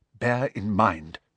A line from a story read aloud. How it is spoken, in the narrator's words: she said quickly and quietly